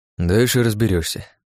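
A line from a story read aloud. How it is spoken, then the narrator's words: Sighing. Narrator (Russian): вздохнул Иван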